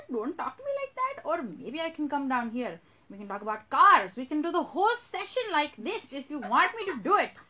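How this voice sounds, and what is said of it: Put-on Indian accent, older woman. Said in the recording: “normally I do my Indian accent ... I can turn into an older Indian woman”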